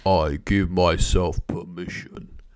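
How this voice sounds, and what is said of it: Dropped low voice, imitates another person. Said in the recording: “drop your voice... Most people sound quite sexy when they do that, but I'm not sure what that was. I think it was that Arnold Schwarzenegger UK style.”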